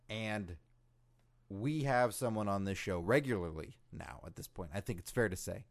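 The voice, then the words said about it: Hoarse, strained voice. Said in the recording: “My voice is shot. I've been screaming this afternoon ... So my voice is a little gone”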